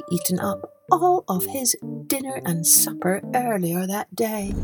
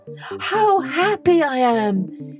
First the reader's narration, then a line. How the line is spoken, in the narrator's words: he cried